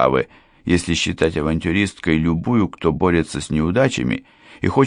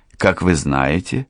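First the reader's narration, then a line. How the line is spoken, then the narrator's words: Calm. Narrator (Russian): спокойно продолжала она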